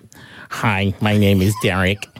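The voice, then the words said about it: Robot voice with an accent. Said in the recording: “that is my robot voice... What accent is that?”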